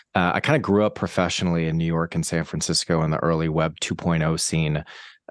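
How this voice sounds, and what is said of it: American Boston accent. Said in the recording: “as you can tell by the accent, I'm not from here. I'm from the States, from Boston”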